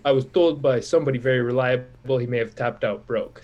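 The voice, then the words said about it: Imitates another person's accent, poorly. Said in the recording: “I'm going to butcher the accent here”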